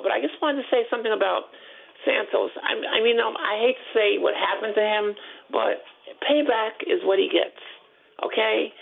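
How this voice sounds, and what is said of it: Hoarse, sore-throated voice. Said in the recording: “I have a little sore throat”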